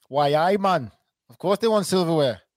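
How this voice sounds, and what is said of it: Put-on Geordie accent. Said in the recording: “That's my Geordie accent”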